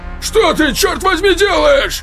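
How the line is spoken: Shout. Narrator (Russian): крикнул капитан

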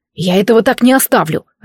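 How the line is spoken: Barked. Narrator (Russian): рявкнул Змеулан

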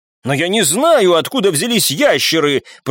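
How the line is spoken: Shouted reply. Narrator (Russian): прокричал в ответ тот, кого назвали Питером

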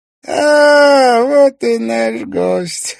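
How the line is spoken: Hoarse gurgle. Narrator (Russian): хрипло заклокотал мастер игрушек

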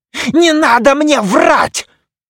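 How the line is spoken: Yelling. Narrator (Russian): завопил душекрат

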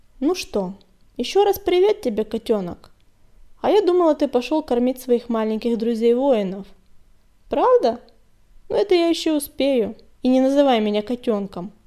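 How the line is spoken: Stern warning. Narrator (Russian): строго предупредил огонек

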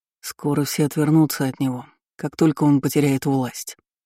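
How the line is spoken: Said quietly. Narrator (Russian): негромко сказал Фернан

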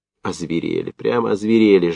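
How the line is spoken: Pitiful hunted sniffling mutter. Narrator (Russian): жалко и затравленно бормотал Ремешков, схлипывая носом

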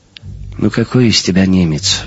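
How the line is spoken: Sighing. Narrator (Russian): вздохнул Жером

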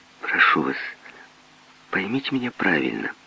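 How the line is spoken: Soft, gentle. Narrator (Russian): мягко проговорил Чарльз

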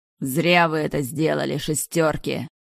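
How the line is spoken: Angry growl. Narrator (Russian): злобно прорычал Ривера

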